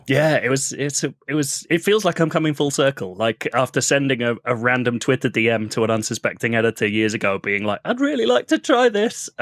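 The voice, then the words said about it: Slight accent. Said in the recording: “I detect a slight accent.”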